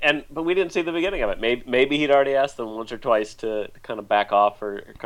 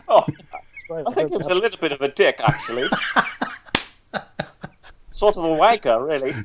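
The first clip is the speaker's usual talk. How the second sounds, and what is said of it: Put-on Scottish-British accent. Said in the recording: “British accent ... With Scottish accent.”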